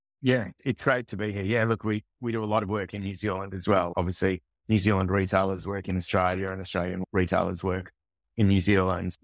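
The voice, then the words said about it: Australian accent. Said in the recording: “I love Aussies ... it's awesome to hear a familiar accent today”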